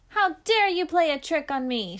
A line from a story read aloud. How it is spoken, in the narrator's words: shouted the monster